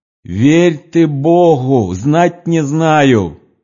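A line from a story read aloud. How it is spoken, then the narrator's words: Distant female prisoner shouting. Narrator (Russian): кричала арестантка с другой стороны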